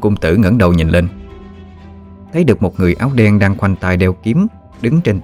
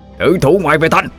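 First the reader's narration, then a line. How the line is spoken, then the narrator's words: Shout. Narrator (Vietnamese): quát lên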